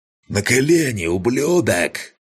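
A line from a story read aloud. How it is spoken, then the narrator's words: Roaring. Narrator (Russian): проревел Чемер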